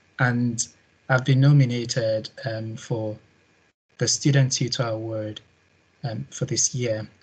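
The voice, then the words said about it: Guttural Nigerian accent. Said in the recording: “I come from West Africa, Nigeria to be precise, as you'll be figuring out from my guttural accent”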